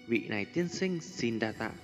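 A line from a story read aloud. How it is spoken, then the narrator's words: Young, gently smiling. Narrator (Vietnamese): khuôn mặt trẻ tuổi thành tú đang khẽ mỉm cười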